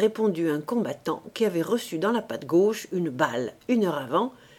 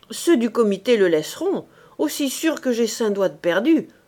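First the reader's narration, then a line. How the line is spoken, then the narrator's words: Wounded man's growl. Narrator (French): a grogné le blessé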